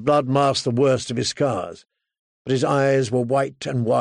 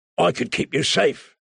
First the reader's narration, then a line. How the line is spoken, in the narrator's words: he rasped